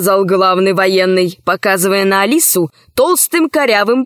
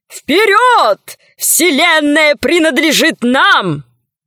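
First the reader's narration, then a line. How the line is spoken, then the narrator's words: Shouting crowd. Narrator (Russian): Военные кричали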